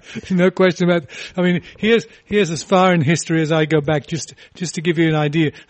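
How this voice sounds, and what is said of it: English accent. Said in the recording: “I can tell by your accent”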